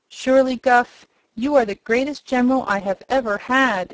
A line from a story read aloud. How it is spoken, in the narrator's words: he exclaimed, his eyes sparkling with joy